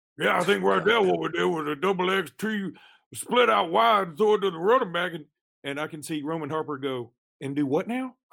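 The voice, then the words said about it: Imitates another person's voice. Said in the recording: “I'm nailing down the Coach O impression ... the best impersonation of the head coach at San Jose State”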